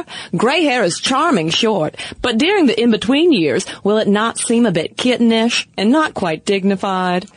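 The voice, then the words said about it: Mid-Atlantic old-school accent. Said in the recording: “You do a mean mid-Atlantic old school accent”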